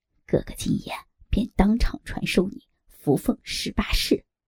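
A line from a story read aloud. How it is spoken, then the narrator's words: Secretive, lowered voice. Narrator (Chinese): 尤巴神秘兮兮的压低声音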